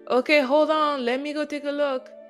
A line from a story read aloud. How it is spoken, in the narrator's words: I hollered